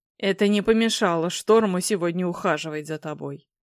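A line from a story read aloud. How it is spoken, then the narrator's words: Grumbling male voice. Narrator (Russian): ворчливым тоном отметил мужчина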